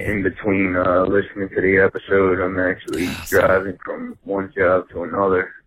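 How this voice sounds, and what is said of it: Tired-sounding voice. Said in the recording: “he sounds so tired all the time”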